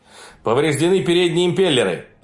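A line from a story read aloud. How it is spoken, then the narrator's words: Yelling. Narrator (Russian): заорал Киллиан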